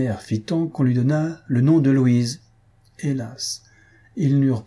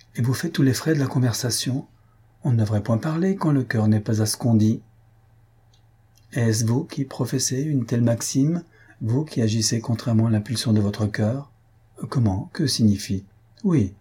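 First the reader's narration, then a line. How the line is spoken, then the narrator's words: Restrained, energetic voice. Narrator (French): poursuivit Faustine, d'une voix contenue, mais pleine d'énergie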